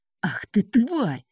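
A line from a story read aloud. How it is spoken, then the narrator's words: Hissing, angry. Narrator (Russian): прошипел начальник тюрьмы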